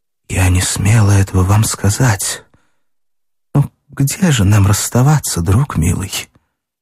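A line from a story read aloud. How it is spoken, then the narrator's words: Quiet answer. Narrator (Russian): Катя тихо ответила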